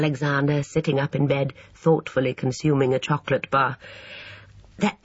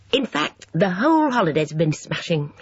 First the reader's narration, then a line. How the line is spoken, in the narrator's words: he added happily